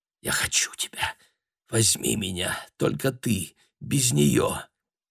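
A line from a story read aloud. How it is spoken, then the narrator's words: Whispered. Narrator (Russian): Хелена прошептала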